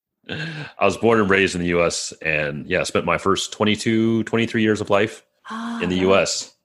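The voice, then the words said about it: Strong American accent. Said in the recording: “you've got like an American accent there ... I still can't get that American accent out of me ... It's strong”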